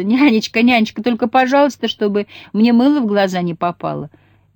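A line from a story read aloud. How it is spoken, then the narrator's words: Constant giggling. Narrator (Russian): непрерывно хихикала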